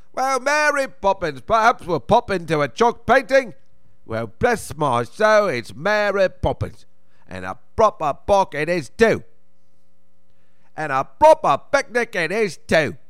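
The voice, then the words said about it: Dick Van Dyke's Mary Poppins accent. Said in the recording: “the accent that I'm planning, that I'm going to do with my niece is going to drive her crazy, which is the Dick Van Dyke one”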